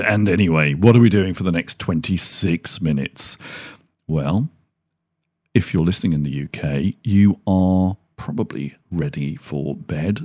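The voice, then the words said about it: Black Country English accent. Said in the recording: “I've just got a Dudley Black Country accent”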